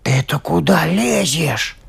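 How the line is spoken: Grumbling shoe. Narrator (Russian): заворчал башмачок

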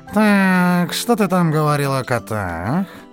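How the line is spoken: Lazy drawl. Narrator (Russian): лениво протянул он

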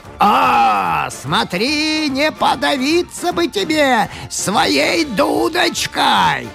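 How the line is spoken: Dragon shouting. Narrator (Russian): Дракон закричал

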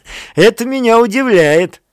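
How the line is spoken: Laughing. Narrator (Russian): сказал барон, смеясь

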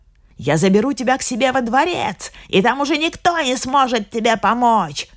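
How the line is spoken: Shouting. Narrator (Russian): кричала она

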